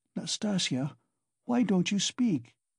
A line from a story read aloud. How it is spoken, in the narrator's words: said timidly at last in a weak voice